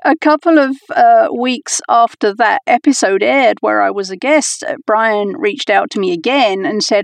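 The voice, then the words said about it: Mixed accent from several places. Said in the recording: “My accent is a bit confused because I've lived in all the places... It's adorable”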